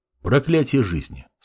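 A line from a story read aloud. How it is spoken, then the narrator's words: Calm. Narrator (Russian): спокойно произнес Мамор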